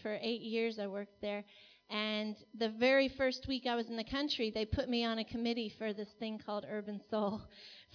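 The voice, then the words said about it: American accent. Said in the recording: “You can probably hear my American accent.”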